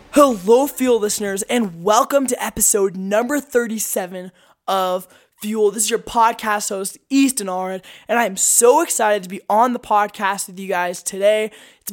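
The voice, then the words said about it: Slightly off, hoarse sick voice. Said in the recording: “My voice sounds just a tad bit off. It's because I've been so sick recently. I've had a cold that's just knocked me out. ... my throat just totally affected by that.”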